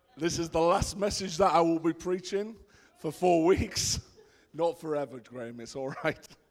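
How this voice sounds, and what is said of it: Worn-out, strained voice. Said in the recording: “my voice is at its end ... give my voice a little bit of a rest”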